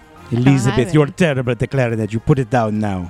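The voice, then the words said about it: Unconvincing French-like accent. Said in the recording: “French, Bulgarian, I don't know where he's from... All my accents, they come from France... No, it did not sound like France to me.”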